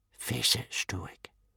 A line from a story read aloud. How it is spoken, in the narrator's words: whispered old Wrinkly